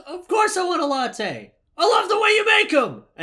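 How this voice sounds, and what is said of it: Aggressive shouting. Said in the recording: “he's shouting aggressively in his agent's face”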